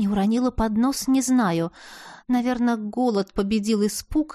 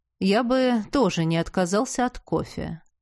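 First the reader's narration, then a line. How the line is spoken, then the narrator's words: Perfectly calm. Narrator (Russian): совершенно спокойно сообщил Константин Вальме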